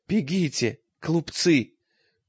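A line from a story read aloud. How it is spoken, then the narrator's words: Thin old man's cry. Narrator (Russian): тоненько вскрикнул старик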